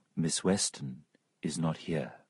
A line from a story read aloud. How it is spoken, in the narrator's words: said, in a soft voice